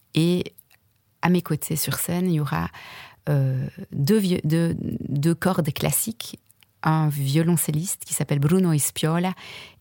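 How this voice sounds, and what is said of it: Italian accent speaking French. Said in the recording (French): “on voyage déjà avec ton accent ... On est déjà un peu en Italie.”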